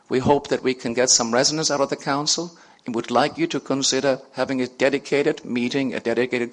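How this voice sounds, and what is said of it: Noticeable non-local accent. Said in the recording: “despite my accent”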